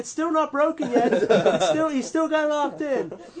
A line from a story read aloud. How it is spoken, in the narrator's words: I'm yelling